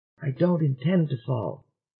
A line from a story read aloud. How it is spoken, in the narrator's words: whispered Dennison